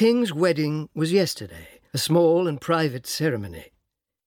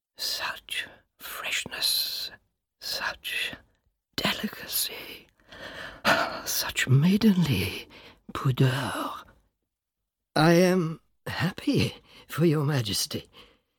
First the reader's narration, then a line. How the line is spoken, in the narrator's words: The king whispers